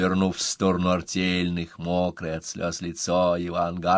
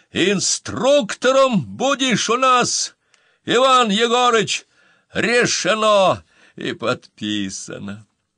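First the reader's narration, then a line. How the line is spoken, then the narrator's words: Crowd shouting. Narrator (Russian): артельные закричали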